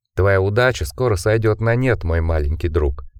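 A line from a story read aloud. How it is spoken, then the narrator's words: Mutter. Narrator (Russian): пробормотал Орис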